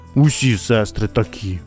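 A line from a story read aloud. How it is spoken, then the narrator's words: Muttered again. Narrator (Ukrainian): знову пробурмотів Михайлик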